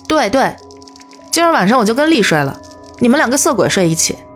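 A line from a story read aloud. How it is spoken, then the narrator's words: Sheepish laugh. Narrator (Chinese): 原野讪笑着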